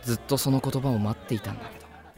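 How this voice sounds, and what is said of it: Soft whisper in pleasant voice. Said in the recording (Japanese): “良い声で ささやく”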